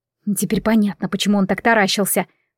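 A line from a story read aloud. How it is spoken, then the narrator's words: Whispered. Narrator (Russian): прошептала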